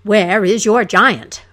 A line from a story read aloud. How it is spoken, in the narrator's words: roared